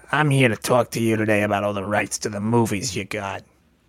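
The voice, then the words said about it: Weird put-on character voice. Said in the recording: “doing a weird voice ... doing a character and like not even a very good character”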